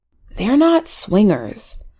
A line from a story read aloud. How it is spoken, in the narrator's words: Valerie whispered to Abby